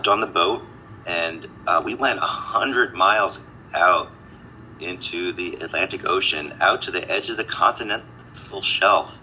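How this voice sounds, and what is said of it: Hoarse voice. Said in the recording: “my apologies for my voice, my hoarse voice ... I'm hoarse from it”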